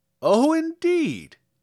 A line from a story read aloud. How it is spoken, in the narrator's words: exclaimed the man